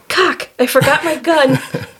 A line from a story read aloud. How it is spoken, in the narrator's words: she yelled